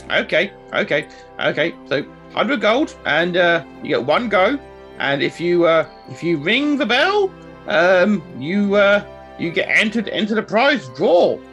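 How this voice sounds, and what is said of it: Character voice with put-on accent. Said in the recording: “I apologize for my accent,”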